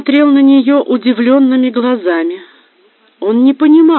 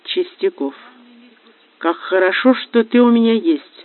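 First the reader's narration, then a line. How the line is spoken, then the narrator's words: Muffled tender murmur. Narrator (Russian): пробормотала она, уткнувшись носом в его шею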